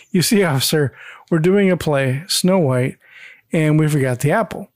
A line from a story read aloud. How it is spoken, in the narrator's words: Mike begins to nervously laugh as he says